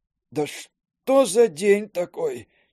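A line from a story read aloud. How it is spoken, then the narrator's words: Almost groaning. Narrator (Russian): чуть не застонал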